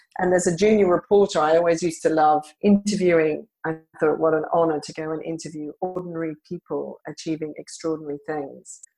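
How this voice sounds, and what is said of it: Australian accent. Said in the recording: “my early career was as a journalist in Australia, where I'm originally from. You can probably hear from my accent.”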